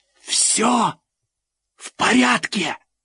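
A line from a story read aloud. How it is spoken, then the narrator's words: Loud whisper. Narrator (Russian): громким шепотом сообщил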